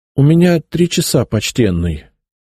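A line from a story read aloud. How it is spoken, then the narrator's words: Humble voice. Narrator (Russian): смиренным голосом произнес я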